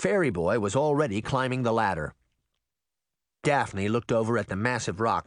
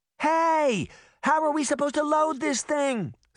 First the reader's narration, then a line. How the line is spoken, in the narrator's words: Sabrina cried